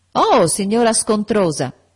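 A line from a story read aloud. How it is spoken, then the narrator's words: Shouting. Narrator (Italian): gridò John Reed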